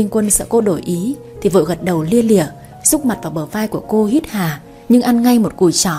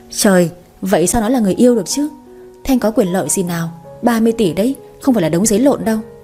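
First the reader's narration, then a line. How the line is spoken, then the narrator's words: Wry laughing. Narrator (Vietnamese): Người kia bật cười nhăn nhó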